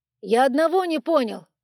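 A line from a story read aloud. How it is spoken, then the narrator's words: Shouted while moving. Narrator (Russian): крикнул Зирк на ходу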